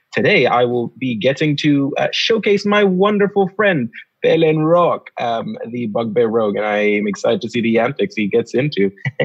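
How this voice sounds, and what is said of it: Sudanese accent. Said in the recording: “Is that an accent I just heard? ... Yes, it is. I am pulling out my traditional Sudanese accent”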